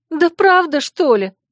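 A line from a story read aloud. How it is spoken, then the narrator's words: Indignant through tears. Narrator (Russian): сквозь слезы возмутилась я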